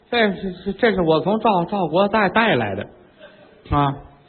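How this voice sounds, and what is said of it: Stammering, halting, incoherent speech. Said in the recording (Chinese): “怎么这样说话呢？越瞧他越瘆得慌，嘴跟这舌头连这大脑连不到一块儿...嘴里吞吞吐吐，语无伦次”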